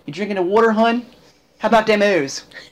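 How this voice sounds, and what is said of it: Put-on Baltimore accent. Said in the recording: “The Baltimore accent, ... Or the Maryland accent, very annoying.”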